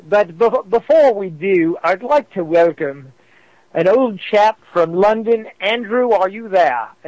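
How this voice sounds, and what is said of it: Very bad put-on British accent. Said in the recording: “is that not the worst British accent you ever heard in your life? ... You make Dick Van Dyke look good.”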